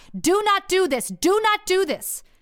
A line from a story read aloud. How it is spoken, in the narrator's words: The voice continued to shout